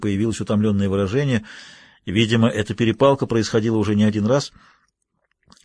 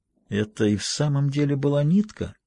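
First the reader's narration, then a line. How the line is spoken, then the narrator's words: Whisper in ear. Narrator (Russian): прошептал ему на ухо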